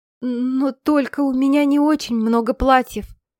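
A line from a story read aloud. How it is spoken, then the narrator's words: Stammering. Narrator (Russian): запинаясь, проговорила она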